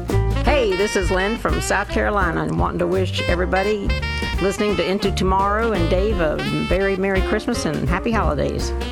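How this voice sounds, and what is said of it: Southern Belle accent. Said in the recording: “She has that that Southern Belle accent”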